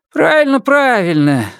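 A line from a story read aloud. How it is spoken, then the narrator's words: Grandmother grumbling. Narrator (Russian): заворчала бабушка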